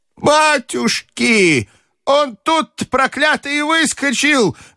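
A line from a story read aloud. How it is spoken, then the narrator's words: Old woman wailing loudly. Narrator (Russian): вопила бабушка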